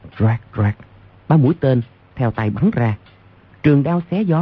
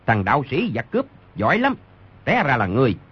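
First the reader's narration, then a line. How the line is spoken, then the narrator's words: Shouting leader. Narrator (Vietnamese): Người đứng đầu quát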